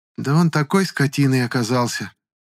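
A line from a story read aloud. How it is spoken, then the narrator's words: Upset sigh. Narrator (Russian): Расстроенно вздохнула Клара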